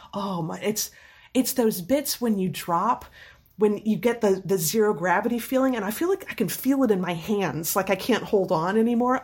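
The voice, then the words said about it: Slightly scratchy voice. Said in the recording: “My voice is still a little scratchy.”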